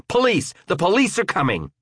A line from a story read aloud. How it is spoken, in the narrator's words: shouted at the top of my lungs